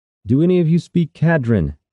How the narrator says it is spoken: Kyrus shouted

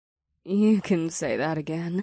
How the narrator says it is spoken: Ada said with a giggle

